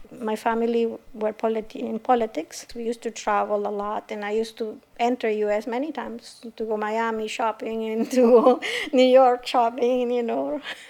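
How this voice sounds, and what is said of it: Spanish accent in English. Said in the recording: “My mother tongue is Spanish. You can probably tell by my accent.”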